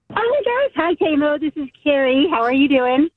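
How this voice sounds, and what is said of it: Happy, cheerful voice. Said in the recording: “You sound so happy.”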